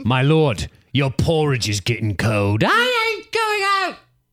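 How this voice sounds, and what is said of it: Character voice with inaccurate accent. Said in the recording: “That's not his accent.”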